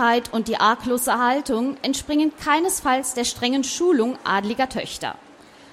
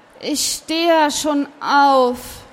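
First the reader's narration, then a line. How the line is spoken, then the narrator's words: Sleepy call. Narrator (German): rief sie noch schlaftrunken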